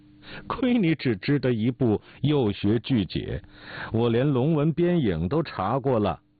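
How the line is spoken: Burst of giggling. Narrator (Chinese): 姓梅的扑哧一声笑了出来

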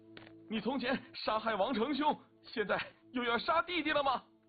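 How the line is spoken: Shouting while running. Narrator (Chinese): 王斌跑得飞快，一边跑还一边喊

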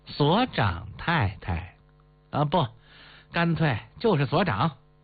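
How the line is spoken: Ambiguous half-angry interjection. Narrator (Chinese): 大赤包似怒非怒，似笑非笑的插嘴

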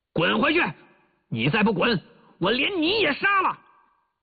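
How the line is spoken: Soldier shouting. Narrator (Chinese): 那个歪嘴伪军回过头来喊

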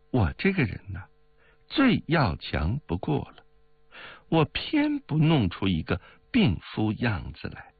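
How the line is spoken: Laughing. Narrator (Chinese): 冰如笑道

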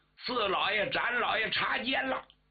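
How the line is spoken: Shout. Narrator (Chinese): 有人喊了一声

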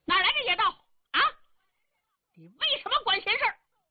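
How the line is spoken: Angry shouting. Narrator (Chinese): 彭伯虎可气坏了，他冲着王峰嚷上了

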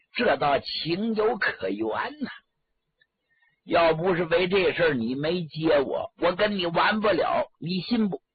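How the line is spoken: Laughing. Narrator (Chinese): 来人听完了之后笑了

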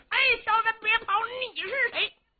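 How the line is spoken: Loud shouting. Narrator (Chinese): 李元霸高声喊嚷

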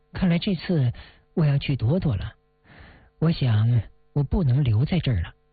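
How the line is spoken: Calm, detached. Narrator (Chinese): 林小影 他淡淡地说

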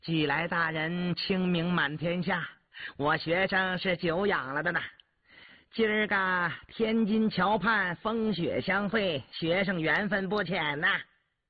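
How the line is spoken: Cheerful grinning. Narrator (Chinese): 钱度笑嘻嘻的

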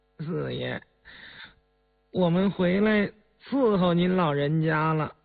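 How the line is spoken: Grinning speech. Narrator (Chinese): 狗儿先开口，呲牙一笑

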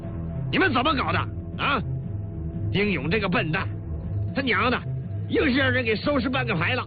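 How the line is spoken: Embarrassed anger. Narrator (Chinese): 李云龙有些恼羞成怒了

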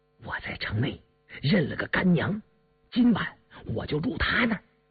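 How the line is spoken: Quiet. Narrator (Chinese): 小猴子满脸的笑容一下子凝固了，低声说

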